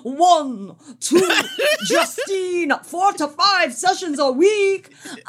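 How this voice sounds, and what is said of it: Vampire count character accent. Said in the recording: “Chocula laugh, definitely. ... That was excellent accent work ... my count impression”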